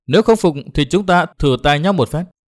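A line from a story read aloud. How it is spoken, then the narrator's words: Smiling woman. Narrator (Vietnamese): Nàng áo đỏ mỉm cười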